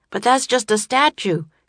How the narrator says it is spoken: cried Jack

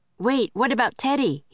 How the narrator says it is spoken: he cried

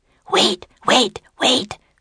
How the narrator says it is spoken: whispered the Spider Queen

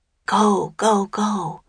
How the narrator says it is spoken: whispered Annie

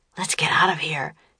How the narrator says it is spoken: whispered Jack

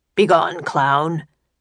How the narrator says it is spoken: the guard said gruffly

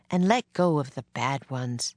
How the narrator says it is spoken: Miss Neely said gently

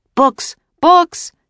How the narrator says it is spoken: shouted

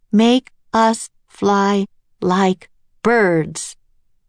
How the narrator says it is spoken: she said in a loud, clear voice

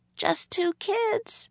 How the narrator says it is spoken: Annie answered in a small voice

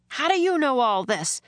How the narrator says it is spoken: shouted above the storm

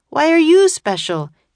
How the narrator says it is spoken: shouted the boy

